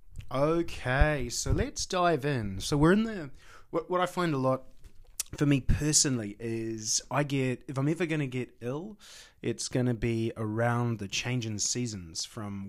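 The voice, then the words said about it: Slightly croaky recovering voice. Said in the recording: “My voice is starting to come back ... I may be a little croaky”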